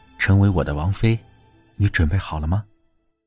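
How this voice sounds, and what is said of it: Soft, quiet spoken line. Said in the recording (Chinese): “他淡淡笑着对齐之遥小声道”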